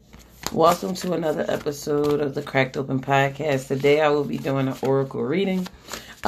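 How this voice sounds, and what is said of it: Strained, fading voice. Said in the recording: “Feels like I'm losing my voice ... It's just I'm losing my voice”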